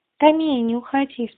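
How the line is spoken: Calm. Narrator (Russian): спокойно сказал Бельткарт

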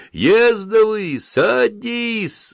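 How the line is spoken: Desperate yell. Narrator (Russian): отчаянно завопил маленький толстый капитан

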